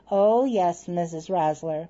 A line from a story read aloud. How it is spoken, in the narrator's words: he answered